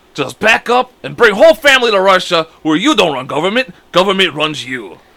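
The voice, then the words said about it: Poor put-on Russian accent. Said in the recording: “Russian accent ... That's not a good one, either. ... No, it's not good”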